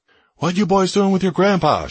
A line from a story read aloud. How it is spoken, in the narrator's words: she yells